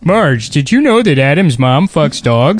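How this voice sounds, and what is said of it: Homer Simpson impression. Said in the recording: “Done your Homer Simpson impression... Is that close? I can't. In my head, it sounds perfect.”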